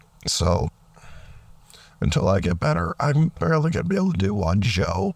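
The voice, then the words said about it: Rough, sick-sounding voice. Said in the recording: “I'm sick, and my voice has been rough ... my voice sounds really bad”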